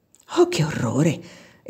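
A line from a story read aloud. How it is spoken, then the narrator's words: Exclaiming. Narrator (Italian): esclamò Eva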